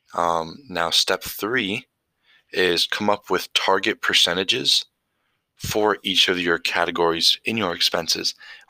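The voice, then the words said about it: Groggy early-morning voice. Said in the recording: “I apologize for my voice. I woke up. It's like 5:30 in the morning.”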